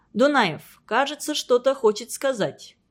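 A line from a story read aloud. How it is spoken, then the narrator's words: Calm. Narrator (Russian): проговорил он спокойно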